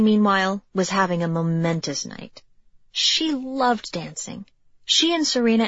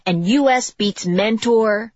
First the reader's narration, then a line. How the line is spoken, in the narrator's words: one of them shouted